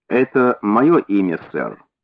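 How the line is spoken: Calm. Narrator (Russian): спокойно ответил мой друг

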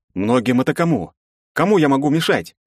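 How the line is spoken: Exclamation. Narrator (Russian): воскликнул я

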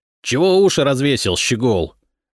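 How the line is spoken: Young soldier barking. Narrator (Russian): рявкнул будущий кирасир

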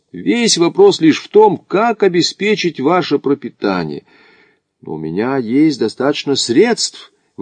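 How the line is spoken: Exclaiming. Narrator (Russian): воскликнул Макдональд

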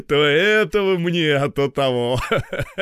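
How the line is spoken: Laughing. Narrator (Russian): засмеялся начдив

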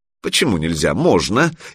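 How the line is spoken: Snide reply. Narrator (Russian): ехидно отозвалась Любка

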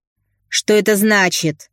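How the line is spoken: Barked. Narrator (Russian): гаркнула дамочка

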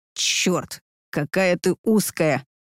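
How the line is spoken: Hissing with pleasure. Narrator (Russian): С кайфом прошипел он

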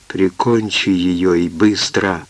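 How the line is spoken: Whispered. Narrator (Russian): Он шепнул Тома

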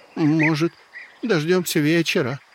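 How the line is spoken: Hopeless, resigned question. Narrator (Russian): Без особой надежды в голосе поинтересовался Волда

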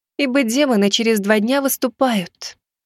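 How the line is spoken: Heavy sigh. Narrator (Russian): тяжело вздохнула она

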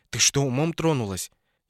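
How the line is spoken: Furious whisper. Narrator (Russian): Катерина спросила бешеным шепотом

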